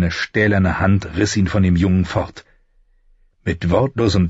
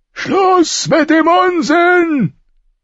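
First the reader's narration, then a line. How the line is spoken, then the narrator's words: Thundering voice. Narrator (German): donnerte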